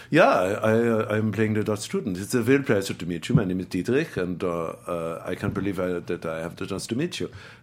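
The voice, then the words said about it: Put-on German accent. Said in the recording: “we're both going to do Dutch accents or German accents ... we're both talking in these German accents the whole time”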